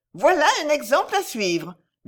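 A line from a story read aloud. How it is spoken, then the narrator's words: Calling out. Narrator (French): lui cria Madame de Val-Noble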